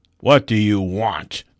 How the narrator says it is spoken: boomed a great voice of the north wind

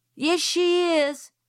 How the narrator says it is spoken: shouted Francis

